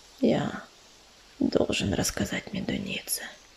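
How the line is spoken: Whisper. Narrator (Russian): прошептал он

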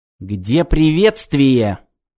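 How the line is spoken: Spiteful question. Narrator (Russian): злобно поинтересовался Роберто Динелли

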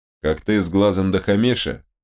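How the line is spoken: Sarcastic question. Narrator (Russian): ехидно уточнил Чингис

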